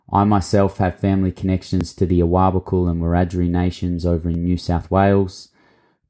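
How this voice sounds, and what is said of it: Australian accent. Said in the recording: “you could probably tell I'm Australian by my accent.”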